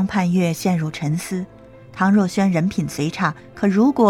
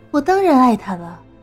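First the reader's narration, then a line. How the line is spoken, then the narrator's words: Sneering laugh. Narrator (Chinese): 唐若萱嗤笑道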